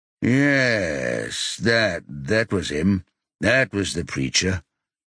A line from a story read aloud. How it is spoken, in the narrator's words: Rocky mutters